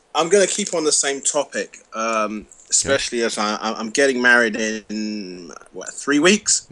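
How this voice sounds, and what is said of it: London accent. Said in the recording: “from London ... I love your accent, man.”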